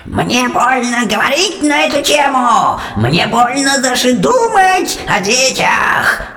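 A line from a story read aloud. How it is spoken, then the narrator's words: Continued shrieking. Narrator (Russian): продолжала визжать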